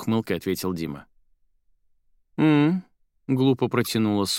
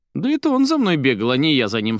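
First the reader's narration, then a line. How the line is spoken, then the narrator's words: Irritated snort. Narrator (Russian): Соня раздраженно фыркнула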